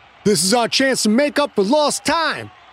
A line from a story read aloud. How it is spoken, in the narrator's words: Pine said in his ringing tone of command